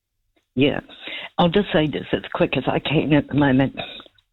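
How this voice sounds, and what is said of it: Congested, slightly weird-sounding voice. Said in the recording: “I've just got a cold. ... my voice sounds a bit weird.”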